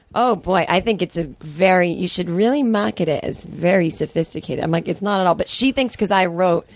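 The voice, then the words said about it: Smiling imitation of her mother. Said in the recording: “My impression of my mom always has, like, I have to have a smile on my face when I do it because that's what she always looks like”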